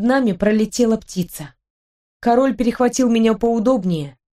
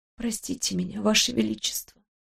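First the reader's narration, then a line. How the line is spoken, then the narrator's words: Whispered. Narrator (Russian): сказала я шепотом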